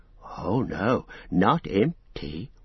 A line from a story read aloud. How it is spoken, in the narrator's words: whispered Gollum